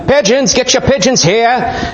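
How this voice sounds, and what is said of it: Put-on Boston accent, hawker's call. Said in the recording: “somebody with like a, I don't know if anybody could speak Aramaic with a Bostonian accent.”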